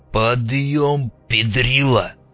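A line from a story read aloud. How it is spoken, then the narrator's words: Angry growl. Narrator (Russian): рыкнул злой голос главаря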